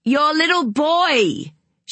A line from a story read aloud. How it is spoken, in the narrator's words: she screamed